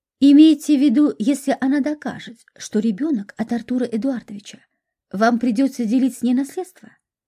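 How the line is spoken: Plain. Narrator (Russian): сказал Парфенов

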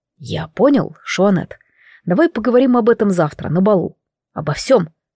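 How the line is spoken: Whispering. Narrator (Russian): прошептал

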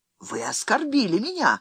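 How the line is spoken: Indignant declaration. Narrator (Russian): возмущенным тоном заявил капитан Трефезн

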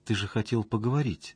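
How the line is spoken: Girl's timid remark. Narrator (Russian): робко заметила девушка

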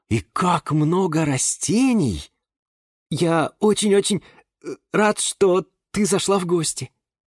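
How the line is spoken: Joyful stammering blurt. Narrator (Russian): Запинаясь на радостях, выпалил Юра

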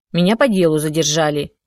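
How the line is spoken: Sharp reply. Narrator (Russian): резко ответила Алена

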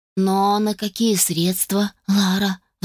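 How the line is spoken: Sighing. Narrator (Russian): вздохнул он

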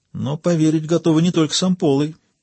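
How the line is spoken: Thoughtful speech. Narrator (Russian): задумчиво проговорила Диана

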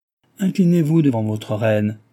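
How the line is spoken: Stern. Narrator (French): dit la cartomancienne d'un ton sévère

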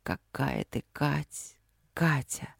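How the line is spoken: Repeated whisper. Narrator (Russian): шептал одно и то же, многократно повторенное

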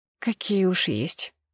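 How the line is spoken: Grumbling. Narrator (Russian): проворчала

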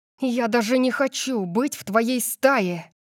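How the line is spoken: Upset. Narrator (Russian): сказала я расстроенная

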